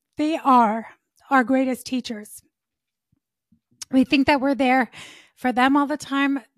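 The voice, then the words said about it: Choked-up, emotional voice. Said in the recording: “I'm going to get choked up for a second.”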